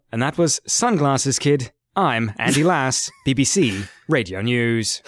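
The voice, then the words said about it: Dull British newsreader voice. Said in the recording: “That's my impression of BBC Radio News ... That's how they always speak, British news reporters ... Everything sound really dull”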